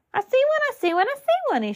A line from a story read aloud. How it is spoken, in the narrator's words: he shouted, even louder than before